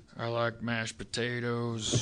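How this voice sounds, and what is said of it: Imitates another person's voice. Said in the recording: “trying to do my Billy Bob Thornton impression.”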